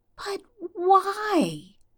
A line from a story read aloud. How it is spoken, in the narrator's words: Stiles whines